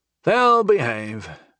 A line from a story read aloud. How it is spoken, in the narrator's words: Janik sighed